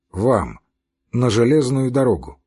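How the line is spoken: Gloomy. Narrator (Russian): мрачно сказал Левин

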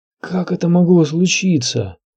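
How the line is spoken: Moaning. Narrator (Russian): простонал сир Харри Свифт

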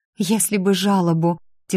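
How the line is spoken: Heavy sigh. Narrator (Russian): тяжело вздохнула та

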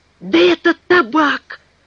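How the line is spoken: Exclamation. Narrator (Russian): воскликнул Пенкроф

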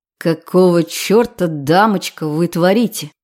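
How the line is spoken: Growling. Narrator (Russian): прорычал

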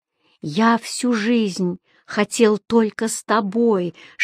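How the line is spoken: Whispering. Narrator (Russian): шептал он

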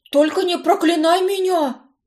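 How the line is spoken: Pleading. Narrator (Russian): взмолился недоученный колдун

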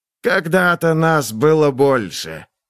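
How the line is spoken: Hissing. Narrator (Russian): прошипел он

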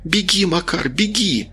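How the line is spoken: Shouting. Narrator (Russian): Рита закричала

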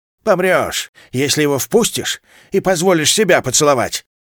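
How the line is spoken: Barked retort. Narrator (Russian): рявкнула Дениза

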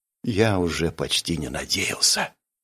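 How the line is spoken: Quiet. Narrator (Russian): тихо сказал

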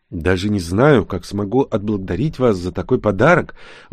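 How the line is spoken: Whispered in ear. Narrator (Russian): прошептал мне на ухо Агнеса

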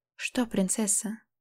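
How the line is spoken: Whispered. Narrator (Russian): Шепотом

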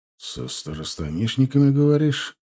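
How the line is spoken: Gloomy. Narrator (Russian): мрачно проговорил начальник разрешительной системы

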